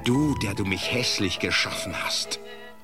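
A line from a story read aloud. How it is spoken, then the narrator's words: Hissing. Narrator (German): zischte er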